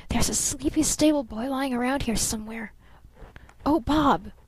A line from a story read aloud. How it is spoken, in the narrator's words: she whispered